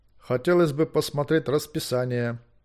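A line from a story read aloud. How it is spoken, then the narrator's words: Dry. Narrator (Russian): сухо сказал лорд Бластер Бладхаунд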